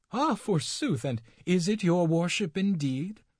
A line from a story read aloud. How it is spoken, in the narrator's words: cried the good dame